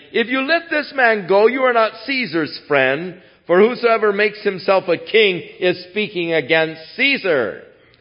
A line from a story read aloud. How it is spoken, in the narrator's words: But the Jews cried out, saying